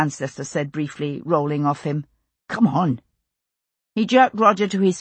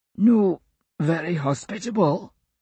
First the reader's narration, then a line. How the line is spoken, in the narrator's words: he wheezed